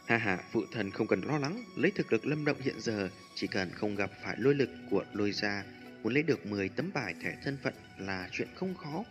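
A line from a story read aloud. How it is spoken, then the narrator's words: Muttered. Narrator (Vietnamese): Lâm Chấn Thiên híp mắt một cái, lẩm bẩm nói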